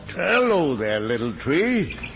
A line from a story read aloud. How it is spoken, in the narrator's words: a voice that boomed out